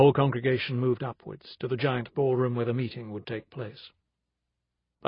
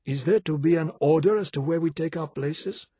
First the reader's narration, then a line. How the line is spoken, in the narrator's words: asked Arjun, in a polite voice